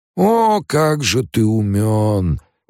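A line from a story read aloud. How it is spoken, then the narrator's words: Drawling. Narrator (Russian): протянул Малки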